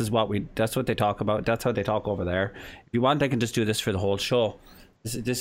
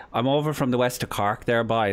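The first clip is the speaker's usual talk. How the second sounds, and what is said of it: Deliberately bad Irish accent. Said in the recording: “a really bad Irish accent”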